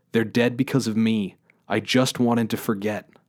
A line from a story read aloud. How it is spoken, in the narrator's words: cried